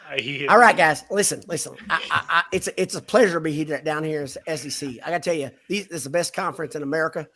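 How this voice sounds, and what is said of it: Fake Southern American accent. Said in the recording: “He can fake the Southern accent ... Let me get in character”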